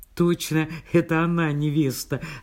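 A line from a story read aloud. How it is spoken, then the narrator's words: Laughing loudly. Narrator (Russian): расхохоталась Люся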